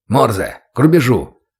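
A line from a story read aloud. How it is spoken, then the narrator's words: Irritated bark. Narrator (Russian): Раздраженно рявкнул инструктор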